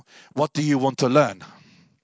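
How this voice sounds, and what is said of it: Imitated heavy Polish accent. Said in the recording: “in his very Polish accent”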